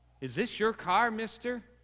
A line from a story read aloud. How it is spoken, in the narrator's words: he asked